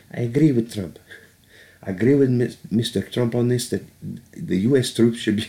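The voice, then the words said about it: Softer voice, imitates another person's voice. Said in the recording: “he actually speaks in, in a little softer of a, of a voice ... I don't even know what that accent is”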